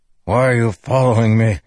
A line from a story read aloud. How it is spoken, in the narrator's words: Teft growled